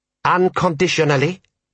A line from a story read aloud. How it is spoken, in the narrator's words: said General Ashal sharply